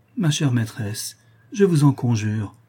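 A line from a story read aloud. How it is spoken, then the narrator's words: Pleading. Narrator (French): reprit Toinon, suppliante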